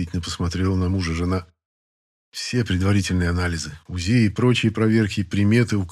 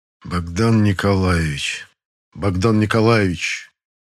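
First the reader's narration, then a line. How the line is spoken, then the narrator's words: Musing, savoring mutter. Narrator (Russian): пробурчал Николай, словно пробуя на вкус, как звучит имя и отчество своего сына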